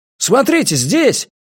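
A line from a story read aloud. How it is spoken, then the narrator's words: Shouting from below. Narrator (Russian): крикнул кто-то из-под дома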